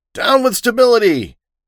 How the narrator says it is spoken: I screamed

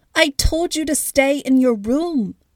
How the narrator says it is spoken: Flora yelled from the kitchen doorway

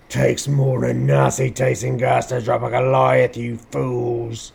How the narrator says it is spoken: He coughed

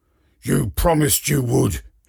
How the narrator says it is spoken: he growls again

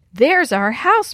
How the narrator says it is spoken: Maria cried

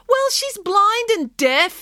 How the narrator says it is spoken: yelled Daisy

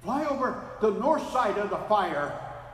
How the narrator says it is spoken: shouted the photographer

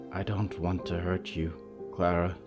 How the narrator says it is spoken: she whispered

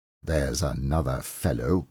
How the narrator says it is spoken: muttered Scrooge

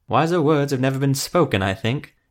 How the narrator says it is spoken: Ethramel said with a chuckle

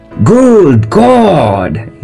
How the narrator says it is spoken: he cried

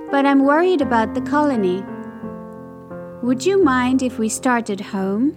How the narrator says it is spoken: Flick sighed

